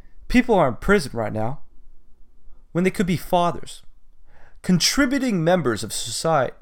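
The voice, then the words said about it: Poor Obama impression. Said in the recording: “that's a terrible Obama impersonation”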